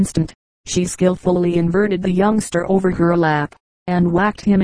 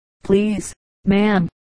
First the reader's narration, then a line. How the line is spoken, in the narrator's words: Thomas answered brokenly